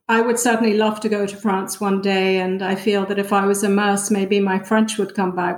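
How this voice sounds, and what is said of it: British-sounding, hard-to-place accent. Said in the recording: “my accent is actually a bit different. The British can't really place it. ... you sound so British to me. ... the Americans think I'm so British. And yet when I used to go to Scotland, they would think I sounded American.”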